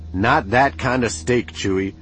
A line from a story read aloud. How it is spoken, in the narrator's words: Han snapped